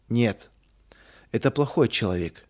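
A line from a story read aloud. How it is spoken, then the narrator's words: Sad. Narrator (Russian): печально заключил Рудик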